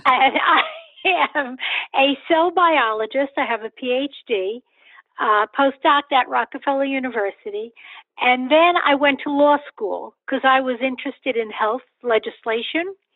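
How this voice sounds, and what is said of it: Bronx accent. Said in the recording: “the accent's from the Bronx”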